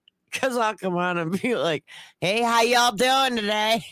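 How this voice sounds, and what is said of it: Grating put-on accent. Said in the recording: “accent of the day ... that's like fingernails on a board”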